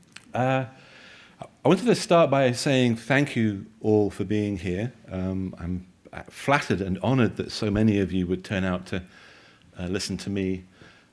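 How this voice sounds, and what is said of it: British accent. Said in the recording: “I have a very strange, limey accent.”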